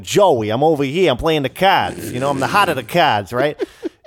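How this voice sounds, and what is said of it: Put-on New York Brooklyn accent. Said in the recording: “he's like Joey from Brooklyn... he's a New Yorker... supposed to have a New York accent”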